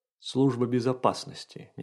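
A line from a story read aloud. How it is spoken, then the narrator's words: Quiet speech. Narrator (Russian): негромко сказал портье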